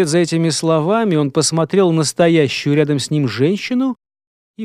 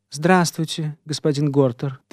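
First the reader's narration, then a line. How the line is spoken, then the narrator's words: Quiet greeting. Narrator (Russian): так же тихо поздоровалась со следопытом Фелиция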